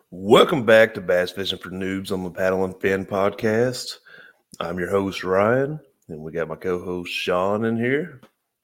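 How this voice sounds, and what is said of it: Smoky, low morning voice. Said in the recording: “we don't usually do this in the morning, but yeah, that's why ... has that smoky, sexy radio voice.”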